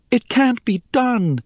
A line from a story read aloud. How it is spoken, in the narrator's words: exclaimed Rhea